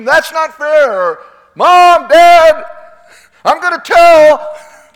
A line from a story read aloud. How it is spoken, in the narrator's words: like children that scream